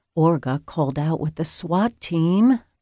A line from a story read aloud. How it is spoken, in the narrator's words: Chloe murmured